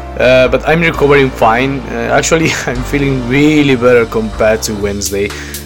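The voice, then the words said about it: Deeper voice from a cold. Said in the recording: “As you can hear, my voice is a little bit deeper because again, I've been sick this week ... just with cold”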